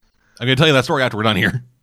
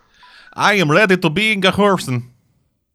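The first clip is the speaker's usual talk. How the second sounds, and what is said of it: Put-on character accent. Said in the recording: “That's actually the accent I use for a D&D character”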